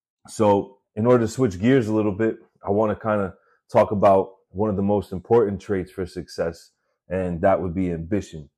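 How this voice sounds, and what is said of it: Mixed Boston and New York accent. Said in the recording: “Wow, that's the Boston in me... I have a Massachusetts slash Florida slash Brooklyn slash Staten Island accent going on. It might be a little annoying. It might sound like I have a speech impediment.”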